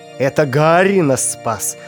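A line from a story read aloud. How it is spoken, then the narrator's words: Tired, smiling. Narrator (Russian): устало улыбнувшись, произнес Филиндор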